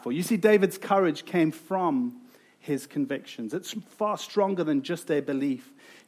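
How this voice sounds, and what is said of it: South African accent. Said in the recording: “you've probably heard from my accent that I am from South Africa”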